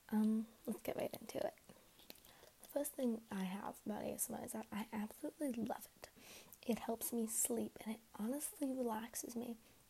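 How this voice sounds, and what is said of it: Groggy, slightly sick voice. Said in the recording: “my voice sounds a little groggy ... I am a little sick”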